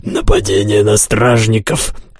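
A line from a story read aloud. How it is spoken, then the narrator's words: Hoarse wheeze. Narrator (Russian): прохрипел главный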